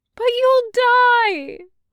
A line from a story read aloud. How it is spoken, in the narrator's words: Anya wailed